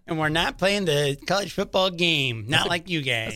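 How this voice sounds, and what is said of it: Imitates a university athletic director. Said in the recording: “That's a good impression. It sounds just like their AD. ... It was like an Notre Dame AD”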